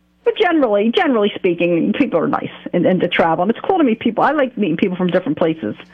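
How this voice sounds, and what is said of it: New Jersey accent. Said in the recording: “you're from, like, Philly or New York, right? Yeah, I'm from Jersey, yeah, mm-hmm, with this accent.”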